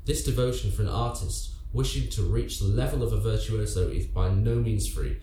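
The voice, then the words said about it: Speaker's own accent. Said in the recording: “That sounds so much better in your accent.”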